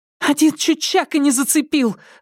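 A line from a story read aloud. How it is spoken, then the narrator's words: Loud yelling. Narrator (Russian): завопила Тереза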